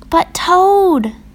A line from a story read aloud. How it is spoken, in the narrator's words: cried Frog